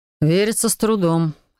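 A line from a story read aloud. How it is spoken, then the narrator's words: Snorting. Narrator (Russian): хмыкнул Себастьян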